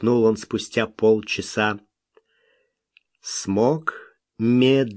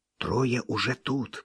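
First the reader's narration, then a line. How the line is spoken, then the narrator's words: Child whispering. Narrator (Russian): прошептал малыш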